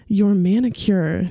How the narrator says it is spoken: he says

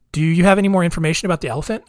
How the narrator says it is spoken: asked

